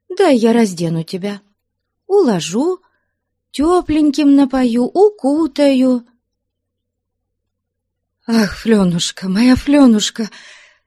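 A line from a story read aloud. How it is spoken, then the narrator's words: Passionate, unfamiliar-sounding exclamation. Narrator (Russian): Страстным, почти незнакомым да то ли Фленушке голосом воскликнула Манефа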